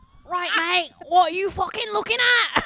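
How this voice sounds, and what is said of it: Put-on Manchester accent. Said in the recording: “That was very Manchester. That's very Manchester.”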